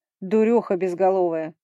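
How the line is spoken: Barked retort. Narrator (Russian): рявкнул тот в ответ

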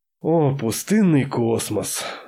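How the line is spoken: Gunsmith's sigh. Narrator (Russian): вздохнул оружейник

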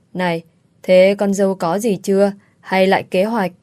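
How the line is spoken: Laughing loudly. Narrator (Vietnamese): Mẹ chồng tôi cười lớn nói

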